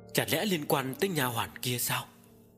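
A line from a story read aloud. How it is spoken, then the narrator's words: Frightened. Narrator (Vietnamese): Phu nhân mới sợ hãi nói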